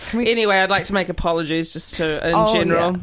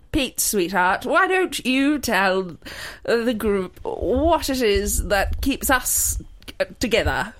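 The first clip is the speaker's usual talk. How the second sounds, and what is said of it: Poor attempt at English accent. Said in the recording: “your authentic English accent. What is this accent as well? ... Brooklyn. ... That was fucking shit. That was so fucking shit.”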